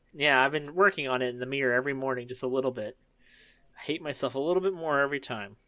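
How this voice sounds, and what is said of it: Usual voice. Nothing is said of it.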